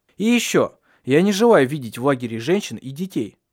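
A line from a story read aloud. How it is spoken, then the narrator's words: Plain. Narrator (Russian): сказал он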